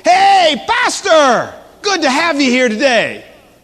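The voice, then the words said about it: Loud yelling voice. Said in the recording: “he yells out at me in a real loud voice”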